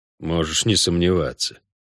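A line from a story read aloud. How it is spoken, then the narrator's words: Through gritted teeth. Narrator (Russian): процедил Геральт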